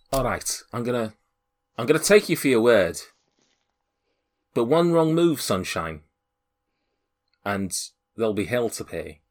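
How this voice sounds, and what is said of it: Put-on accent, hard to place. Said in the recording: “I don't know where that accent comes from. I don't know where I've gone a little bit something or other there.”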